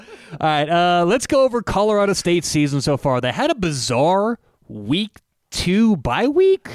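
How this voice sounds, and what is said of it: Usual voice. Nothing is said of it.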